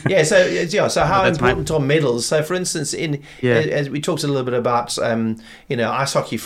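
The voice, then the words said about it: South African accent. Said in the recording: “Durban accent. ... My South African accent.”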